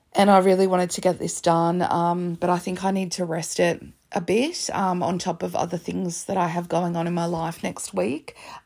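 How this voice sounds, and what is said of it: Wrecked, hoarse voice. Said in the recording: “As you can tell, my voice is just wrecked”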